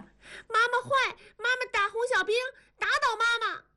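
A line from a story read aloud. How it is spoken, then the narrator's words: Shouting. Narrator (Chinese): 同志冲着文丽喊道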